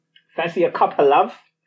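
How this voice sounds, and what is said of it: Put-on British accent. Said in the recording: “Quite British of me... That's my British accent.”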